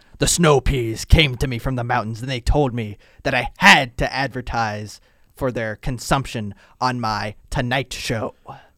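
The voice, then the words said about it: Imitates another person's voice. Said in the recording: “That's my Johnny Carson impression.”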